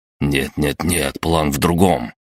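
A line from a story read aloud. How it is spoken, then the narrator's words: Hissed. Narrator (Russian): прошипел я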